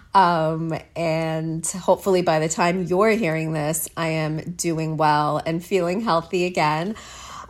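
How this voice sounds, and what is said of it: Sick, under-the-weather voice. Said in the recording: “As you could tell by my voice, I'm a little under the weather.”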